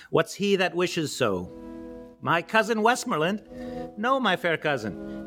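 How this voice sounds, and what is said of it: Polish accent within American accent. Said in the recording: “my silly American accent, with my silly Polish accent in my silly American accent”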